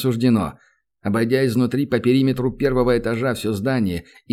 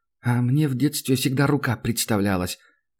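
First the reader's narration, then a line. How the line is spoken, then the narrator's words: Whispered from behind. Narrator (Russian): прошептал из-за спины старшего товарища Санька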